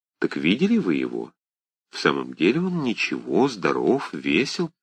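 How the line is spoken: Asked in undertone. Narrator (Russian): она спросила вполголоса

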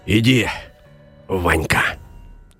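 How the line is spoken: Quiet. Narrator (Russian): тихо сказал Илья

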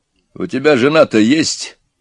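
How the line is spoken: Stern question. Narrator (Russian): спросил начальник строго

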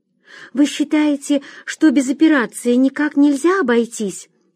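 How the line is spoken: Timid question. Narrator (Russian): робко спросила Вера

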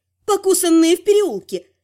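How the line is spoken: Brisk cheerful report. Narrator (Russian): бодро доложила я

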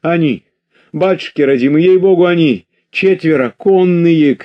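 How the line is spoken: Shouting. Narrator (Russian): кричала она

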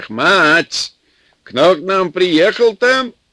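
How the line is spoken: Yelling. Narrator (Russian): заорал в сенях

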